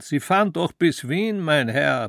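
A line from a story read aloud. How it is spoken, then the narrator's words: Conductor bellowing. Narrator (German): brüllte der Kondukteur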